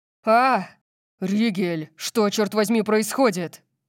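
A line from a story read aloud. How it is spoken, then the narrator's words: Roaring. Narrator (Russian): Взревел Орион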